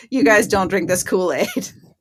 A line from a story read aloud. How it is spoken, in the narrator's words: he stood up and laughed out loud and said